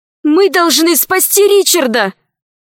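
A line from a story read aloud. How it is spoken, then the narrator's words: Shout. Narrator (Russian): закричала Алиса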